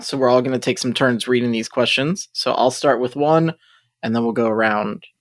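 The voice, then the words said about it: Hoarse, strained voice. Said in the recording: “my throat is a little hoarse right now”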